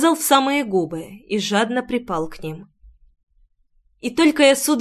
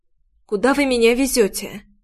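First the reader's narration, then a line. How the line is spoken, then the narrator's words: Hoarse voice. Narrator (Russian): Голос прозвучал хрипло, будто я резко подхватила простуду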